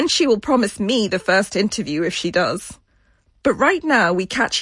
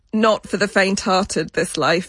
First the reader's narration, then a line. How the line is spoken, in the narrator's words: she says